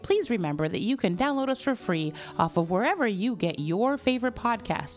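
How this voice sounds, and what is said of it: Polite customer service voice. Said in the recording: “customer service voice”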